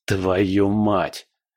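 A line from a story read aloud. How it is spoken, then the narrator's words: Hissed, barely restrained anger. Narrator (Russian): прошипел Павел, с трудом сдерживая гнев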